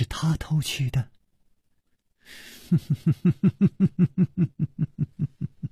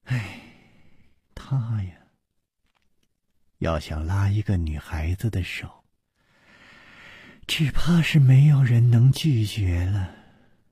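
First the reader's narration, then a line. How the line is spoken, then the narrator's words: Sighing. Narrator (Chinese): 苏蓉蓉叹道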